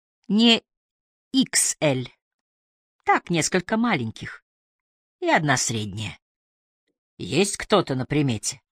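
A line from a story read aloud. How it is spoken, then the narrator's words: Soft laugh. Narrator (Russian): Она тихо засмеялась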